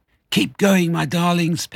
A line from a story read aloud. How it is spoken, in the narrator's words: panted Mr